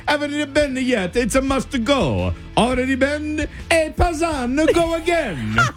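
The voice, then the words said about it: Put-on Italian accent. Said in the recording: “in an Italian accent”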